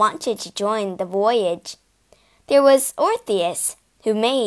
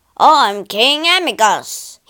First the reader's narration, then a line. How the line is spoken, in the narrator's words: he roared